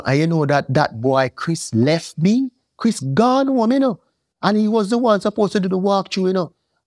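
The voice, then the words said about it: Thick accent. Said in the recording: “my accent too thick”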